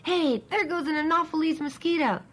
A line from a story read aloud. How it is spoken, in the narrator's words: one of them suddenly shouts